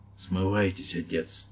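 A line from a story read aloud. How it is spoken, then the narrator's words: Barely audible whisper. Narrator (Russian): Еле слышный голос прошептал по-английски в ухо священника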